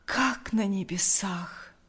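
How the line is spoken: Breathless exclamation. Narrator (Russian): выдохнул Лукьян

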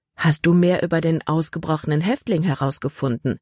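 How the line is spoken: Plain question. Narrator (German): fragte sie

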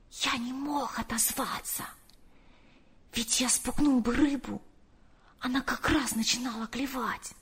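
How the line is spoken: Whisper. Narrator (Russian): прошептал

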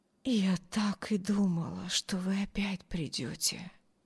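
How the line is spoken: Barely audible whisper. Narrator (Russian): едва слышно прошептали ее бледные губы

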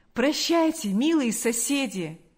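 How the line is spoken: Exclaiming. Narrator (Russian): воскликнул

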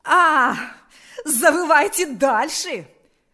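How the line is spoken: Shouting again. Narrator (Russian): вновь закричала она

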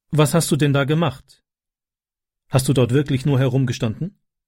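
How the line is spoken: Plain. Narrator (German): fragte sie

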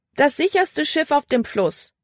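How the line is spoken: Calling out. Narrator (German): rief sie

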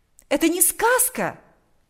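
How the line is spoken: Exclaiming. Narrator (Russian): воскликнула она

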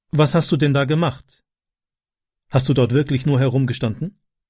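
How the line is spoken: Plain. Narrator (German): fragte sie

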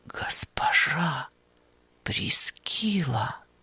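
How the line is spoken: Stunned disbelieving whisper. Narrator (Russian): прошептал он, полагая, что, вероятно, после всего пережитого лишился разума и видит привидение

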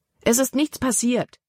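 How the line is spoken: Exclaimed. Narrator (German): rief Libby aus

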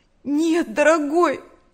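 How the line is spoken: Trembling voice. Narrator (Russian): дрожащим голосом сказала Нэнси

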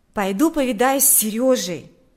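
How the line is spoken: Exclaimed. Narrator (Russian): воскликнул Миша

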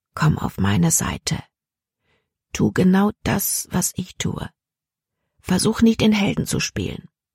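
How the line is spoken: Said quietly. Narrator (German): Caleb sagte leise

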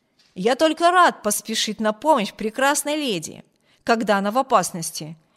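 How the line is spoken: Gallant exclamation. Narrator (Russian): воскликнул полковник

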